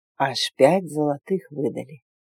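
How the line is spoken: Sleepy voice. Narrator (Russian): сообщил Свен полусонным голосом

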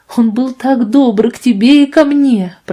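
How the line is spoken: Sobbing voice. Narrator (Russian): продолжала она со всхлипом в горле

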